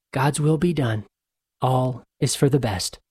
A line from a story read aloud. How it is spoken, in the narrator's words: Father Gilpin weakly smiled and said